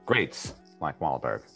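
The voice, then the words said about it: Imitates another person's voice. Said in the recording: “That's my impression of him.”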